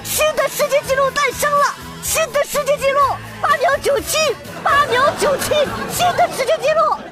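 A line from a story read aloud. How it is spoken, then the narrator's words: Excited announcer shouting. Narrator (Chinese): 播音员激动的大喊着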